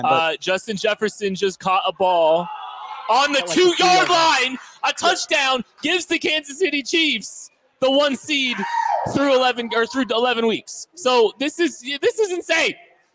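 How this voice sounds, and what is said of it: Excited screaming. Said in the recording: “I'm screaming.”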